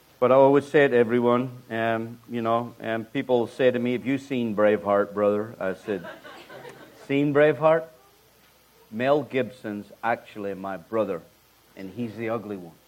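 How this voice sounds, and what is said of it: Speaks with a noticeable accent. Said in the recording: “You love the accent, don't you?”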